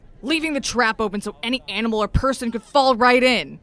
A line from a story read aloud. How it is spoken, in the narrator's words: yelled